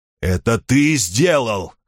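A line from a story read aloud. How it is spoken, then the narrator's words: Hoarse wheeze. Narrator (Russian): хрипел он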